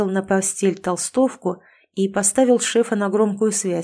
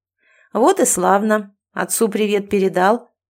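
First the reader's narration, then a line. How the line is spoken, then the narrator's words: Persistent, hoarse laugh over phone. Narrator (Russian): не унимался он, хрипло рассмеявшись в трубку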